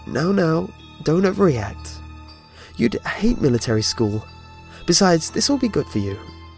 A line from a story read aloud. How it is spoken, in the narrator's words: My caseworker laughed too, obviously, and said